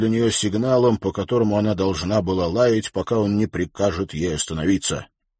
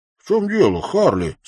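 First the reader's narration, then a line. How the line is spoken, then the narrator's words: Feigned surprise. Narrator (Russian): спросил он притворно удивленным тоном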